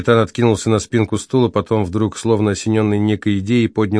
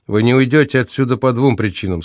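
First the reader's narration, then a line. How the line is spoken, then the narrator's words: Very calm. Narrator (Russian): сказал очень спокойно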